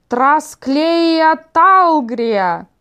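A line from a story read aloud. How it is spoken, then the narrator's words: Terrible, unnaturally low shout. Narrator (Russian): прокричала она каким-то ужасным, неестественно низким голосом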